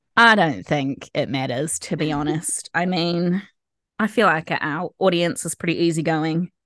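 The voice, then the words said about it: Voice sounds sick. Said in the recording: “Someone got sick. ... you can probably tell by their voice. ... But it's definitely me.”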